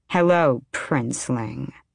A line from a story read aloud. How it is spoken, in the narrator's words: purred